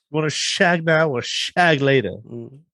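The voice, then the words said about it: Austin Powers-style British accent. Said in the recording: “Your accent's pretty good.”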